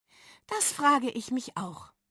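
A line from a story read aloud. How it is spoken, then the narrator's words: Sighing. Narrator (German): seufzte Dolly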